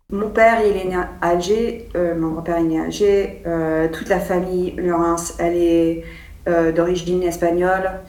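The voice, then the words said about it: American accent speaking French. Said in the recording (French): “elle a un accent américain”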